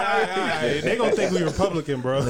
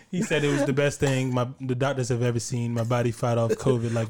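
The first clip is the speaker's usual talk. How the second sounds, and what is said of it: Imitates another person's voice. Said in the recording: “good Trump impression”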